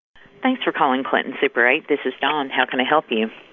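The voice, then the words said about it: Loud, robotic-sounding phone voice. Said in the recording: “You sound like a computer ... You're a little bit loud in my ears ... I do talk a little loud”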